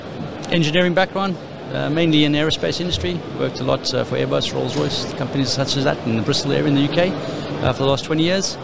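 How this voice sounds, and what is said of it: South African accent. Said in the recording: “I'm originally born and bred in South Africa, so apologies for the accent.”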